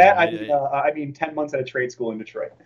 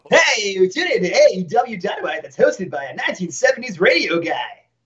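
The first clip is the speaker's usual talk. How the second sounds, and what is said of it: Mock radio announcer voice. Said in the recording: “your radio voice was was unformed.”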